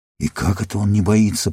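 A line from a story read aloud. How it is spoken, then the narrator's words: Muttering. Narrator (Russian): пробормотал гном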